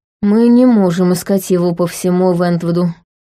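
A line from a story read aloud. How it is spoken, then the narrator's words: With long sigh. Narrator (Russian): сказал Тайлер, протяжно вздохнув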